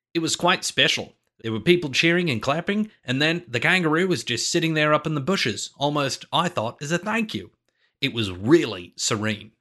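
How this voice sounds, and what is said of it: Put-on Australian accent. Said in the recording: “I'll try an Australian accent ... Apologies to anyone from Australia”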